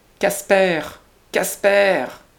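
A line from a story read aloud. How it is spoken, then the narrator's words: Old woman's strangled cry. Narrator (French): une vieille, au premier, cria de sa fenêtre, d'une voix étranglée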